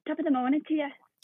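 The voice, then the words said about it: Weak Irish accent, sounds northern English. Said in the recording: “you sounded like yourself. ... Northern, yeah. ... Maybe slightly more northern. ... Oh, that was terrible. That can't do accents at all.”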